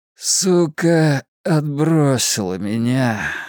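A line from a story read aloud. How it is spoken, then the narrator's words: Tired, just-woken voice. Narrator (Russian): ответил Ричи все тем же усталым голосом только что проснувшегося человека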